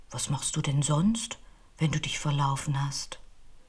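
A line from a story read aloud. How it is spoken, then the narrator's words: Calm question. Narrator (German): fragte er sie mit ruhiger Stimme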